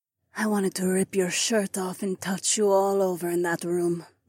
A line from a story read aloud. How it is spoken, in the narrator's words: Nora breathed in my ear